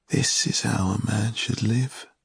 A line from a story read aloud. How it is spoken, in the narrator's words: sighed